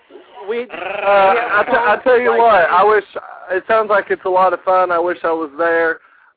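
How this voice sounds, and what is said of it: Southern American accent. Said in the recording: “Southern accent.”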